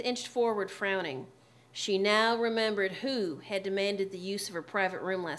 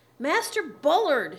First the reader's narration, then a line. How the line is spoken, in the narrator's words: yelled, not bothering to be gentle